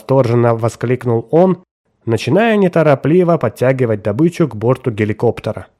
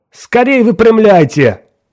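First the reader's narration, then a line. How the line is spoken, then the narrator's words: Shouted. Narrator (Russian): крикнул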